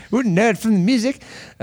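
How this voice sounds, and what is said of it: Vague attempt at British accent. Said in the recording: “I don't know what accent that is. ... I was trying to do like some sort of like British kind of I don't know what I was trying to do there.”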